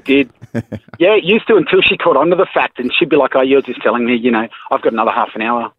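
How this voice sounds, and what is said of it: Broad Australian accent. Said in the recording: “you have a broad Australian accent”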